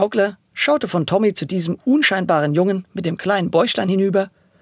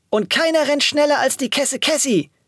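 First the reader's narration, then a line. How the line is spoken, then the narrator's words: Excited call. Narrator (German): rief Alia aufgeregt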